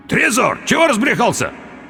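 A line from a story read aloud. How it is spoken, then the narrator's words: Indistinct hoarse croak. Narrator (Russian): Я попытался крикнуть ему, но смог выдавить из себя лишь невнятный хрип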